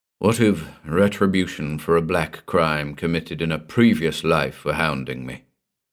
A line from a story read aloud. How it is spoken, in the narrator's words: he muttered